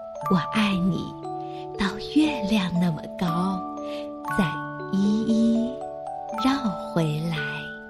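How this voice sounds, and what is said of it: Soft, quiet, smiling voice. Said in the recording (Chinese): “小声的微笑着说”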